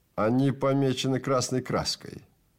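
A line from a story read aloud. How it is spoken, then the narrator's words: Plain. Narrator (Russian): ответил Трэвис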